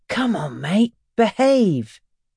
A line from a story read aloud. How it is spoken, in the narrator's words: moans and tucks her lowered head into her arms